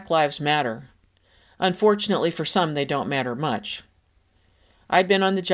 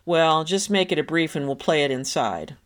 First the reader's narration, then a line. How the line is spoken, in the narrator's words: he replied in his syrupy East Texas drawl